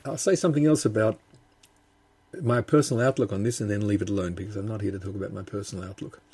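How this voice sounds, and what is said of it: Australian accent. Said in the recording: “I'm from Australia, as people who are listening and wondering where my accent comes from might have noticed.”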